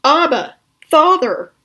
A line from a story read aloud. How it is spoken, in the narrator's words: cried out